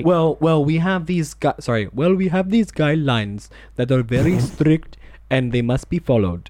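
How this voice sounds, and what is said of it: Put-on accent impression. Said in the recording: “it's an impression, it's an accent”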